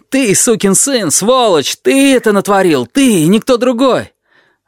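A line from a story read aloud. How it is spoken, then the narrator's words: Angry yelling. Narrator (Russian): И опять заорал что-то вроде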